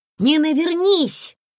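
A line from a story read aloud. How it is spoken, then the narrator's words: Shouted while running. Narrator (Russian): на бегу крикнула Комарова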